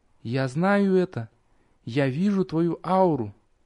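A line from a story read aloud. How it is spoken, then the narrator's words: Quiet, unsure. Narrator (Russian): Верия неожиданно смешалась, внезапно утратив львиную долю своей уверенности, тихо сказала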